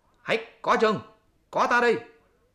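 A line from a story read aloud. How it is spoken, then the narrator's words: Loud shout. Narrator (Vietnamese): Hành giả quát to lên bảo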